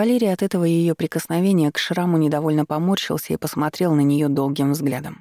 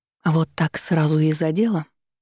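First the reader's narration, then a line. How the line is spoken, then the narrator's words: Purring woman. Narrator (Russian): промурлыкала Вика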